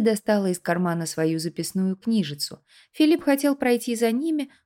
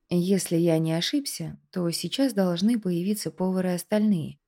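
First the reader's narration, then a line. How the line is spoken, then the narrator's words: Spoken in undertone. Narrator (Russian): вполголоса произнес Андрей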